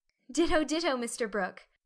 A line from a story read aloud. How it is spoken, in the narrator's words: laughed Meg